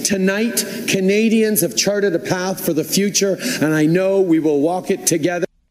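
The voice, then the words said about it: Put-on accent imitating a politician. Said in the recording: “Monsieur Justin Trudeau, who does not sound like this, but we like to pretend ... when I'm not doing any accent”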